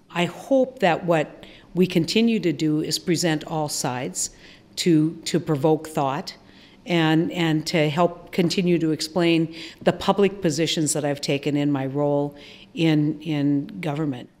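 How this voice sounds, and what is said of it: Distinctive regional American accent. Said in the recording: “stay for the amazing accent”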